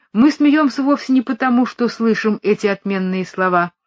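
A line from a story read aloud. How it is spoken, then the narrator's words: Plain. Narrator (Russian): ответила Парламанта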